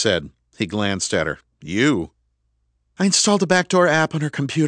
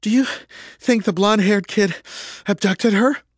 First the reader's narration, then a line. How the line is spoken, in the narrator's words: Selena asked between gasps for air